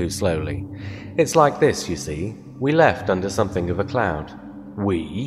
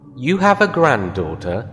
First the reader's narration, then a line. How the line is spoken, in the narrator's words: I exclaimed